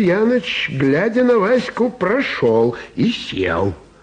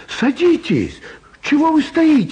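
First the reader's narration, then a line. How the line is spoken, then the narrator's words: Cheerful shout. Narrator (Russian): весело крикнула Элочка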